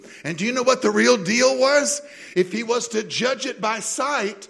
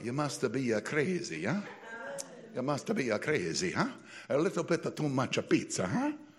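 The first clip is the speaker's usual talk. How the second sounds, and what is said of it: Put-on Italian accent. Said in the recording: “I'll give it an Italian lilt.”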